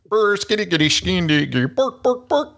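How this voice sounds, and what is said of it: Swedish Chef impression, mock Swedish gibberish. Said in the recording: “Swedish Chef impersonation”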